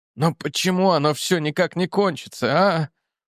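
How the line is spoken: Hoarse rasp. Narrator (Russian): прохрипел он

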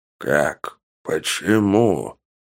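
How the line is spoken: Muttering. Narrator (Russian): Бормотал рогатый

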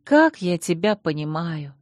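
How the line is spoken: Sighing. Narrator (Russian): вздохнула

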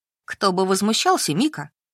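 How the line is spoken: Snort. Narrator (Russian): хмыкнула Валя

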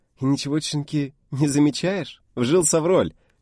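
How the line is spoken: Giggling girl. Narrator (Russian): хихикнула девушка

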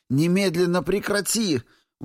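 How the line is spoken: Sudden shriek. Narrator (Russian): взвизгнула вслух, потому что темный, впав в ярость, ослабил контроль за телом

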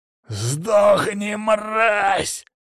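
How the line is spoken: Bandit barking. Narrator (Russian): рявкнул последний уцелевший бандит

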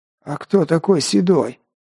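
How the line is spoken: Wheezing rasp. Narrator (Russian): просипел тот

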